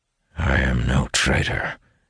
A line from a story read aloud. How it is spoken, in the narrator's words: replies, his voice a low rumble